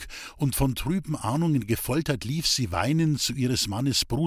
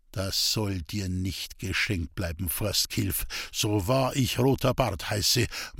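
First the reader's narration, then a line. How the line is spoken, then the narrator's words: Grim mutter. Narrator (German): murmelte er grimmig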